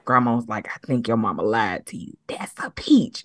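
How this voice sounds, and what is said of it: Whispered quoted line. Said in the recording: “She was like whispering it.”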